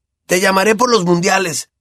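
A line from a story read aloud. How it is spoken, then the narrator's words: Shouted. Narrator (Spanish): gritó Ron a Harry al despedirse de ellos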